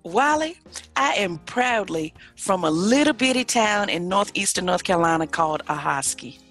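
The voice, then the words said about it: Noticeable regional American accent. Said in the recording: “I'm like hearing your accent here again”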